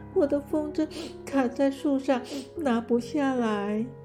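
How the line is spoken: Crying. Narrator (Chinese): 猫咪边哭边说

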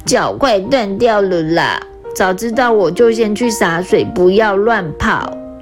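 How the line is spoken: Tearful muttering to herself. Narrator (Chinese): 拉拉哭丧着脸，自言自语地说

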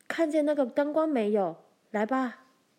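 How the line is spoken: Shouting. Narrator (Chinese): 他朝凯普大叫

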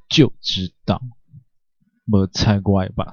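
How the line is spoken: Irritated grumbling, stopping sobs. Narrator (Chinese): 刚刚还感动在心的夏宇，突然止住了哽咽，没好声地抱怨着

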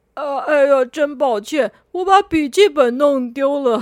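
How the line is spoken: Awkward laughing. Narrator (Chinese): 红不让只好尴尬的笑着说

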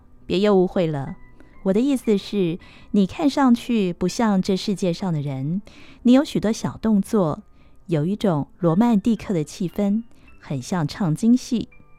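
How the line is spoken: Laughing. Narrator (Chinese): 柳原笑道

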